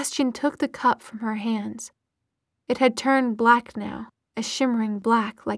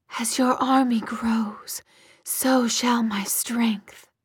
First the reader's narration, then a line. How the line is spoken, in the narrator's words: Lilith hissed